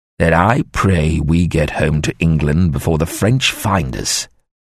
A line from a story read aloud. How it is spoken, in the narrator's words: Father Christopher said firmly